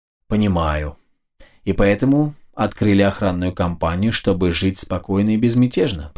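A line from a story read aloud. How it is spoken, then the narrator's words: Even, unsarcastic voice. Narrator (Russian): произнес я ровным голосом, без всякого сарказма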